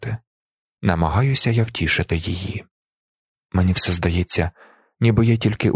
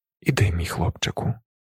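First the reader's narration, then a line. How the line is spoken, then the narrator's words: Quiet. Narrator (Ukrainian): тихо каже вона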